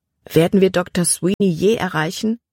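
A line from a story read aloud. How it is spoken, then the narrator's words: Plain question. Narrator (German): fragte sie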